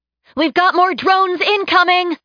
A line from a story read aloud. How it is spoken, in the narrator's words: Ashley shouted